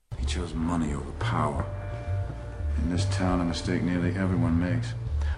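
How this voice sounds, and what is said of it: Heavy Southern accent, Frank Underwood. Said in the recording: “Kevin Spacey plays a politician from Gaffney, South Carolina, named Frank Underwood. The fictional president has a heavy Southern accent, but some are questioning its authenticity.”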